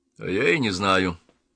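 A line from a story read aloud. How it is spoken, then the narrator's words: Gloomy. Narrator (Russian): мрачно ответил маркиз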